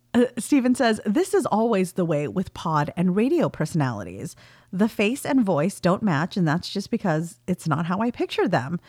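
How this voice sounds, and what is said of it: Heavy Valley girl accent. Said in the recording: “my accent is quite heavily Valley girl, having grown up in California in the 90s.”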